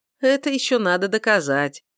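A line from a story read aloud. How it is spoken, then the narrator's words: Laughing. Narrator (Russian): ответил смеясь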